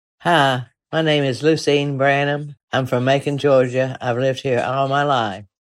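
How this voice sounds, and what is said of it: Southern drawl accent. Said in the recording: “she has a pretty representative version of the famous Southern drawl”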